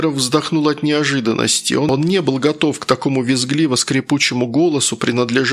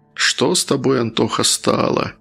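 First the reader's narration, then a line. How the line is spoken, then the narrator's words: Sad musing. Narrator (Russian): грустно задумался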